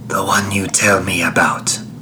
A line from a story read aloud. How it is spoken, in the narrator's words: croaked Camilla softly